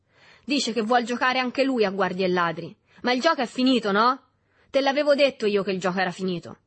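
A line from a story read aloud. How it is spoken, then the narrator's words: Shouting. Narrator (Italian): Si udì a questo punto gridare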